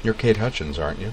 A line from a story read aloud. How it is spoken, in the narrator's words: Joe asked in his soft, mellow voice